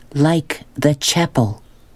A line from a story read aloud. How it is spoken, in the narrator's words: she said slowly, making each word clear and strong